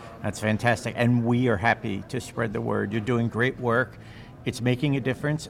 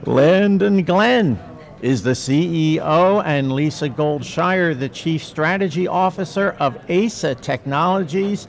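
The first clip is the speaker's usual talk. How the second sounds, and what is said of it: Announcer voice. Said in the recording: “now I get to put announcer voice on.”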